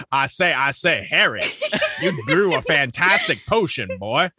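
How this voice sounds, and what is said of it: Foghorn Leghorn impression. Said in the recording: “Slughorn Leghorn ... I can totally hear him being like ... do a foghorn leghorn voice”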